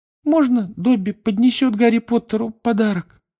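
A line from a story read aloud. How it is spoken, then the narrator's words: Timid question. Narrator (Russian): робко спросил он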